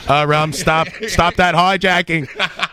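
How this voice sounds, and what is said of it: Put-on Boston accent. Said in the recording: “my Bostron accent”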